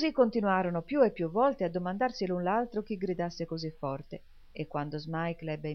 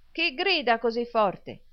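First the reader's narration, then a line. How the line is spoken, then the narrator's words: Shouting. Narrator (Italian): gridò Smike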